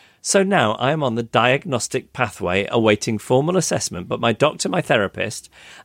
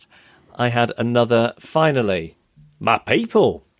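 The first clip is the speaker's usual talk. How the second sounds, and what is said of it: Put-on generic Australian accent. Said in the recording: “That was me doing a generic Australian accent”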